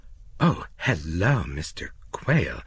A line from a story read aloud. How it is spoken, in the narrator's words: she said nervously